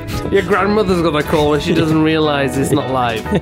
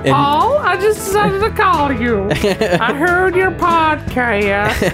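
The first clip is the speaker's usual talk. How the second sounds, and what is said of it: Put-on accent imitating a grandmother. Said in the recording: “And done in the right accent. ... That was a good accent.”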